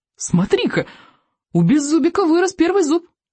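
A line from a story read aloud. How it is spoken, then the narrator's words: Child exclaiming. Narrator (Russian): воскликнул рыбьенок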